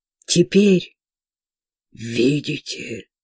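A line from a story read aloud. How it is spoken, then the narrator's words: Mother superior, muffled voice. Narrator (Russian): глухо осведомилась мать-настоятельница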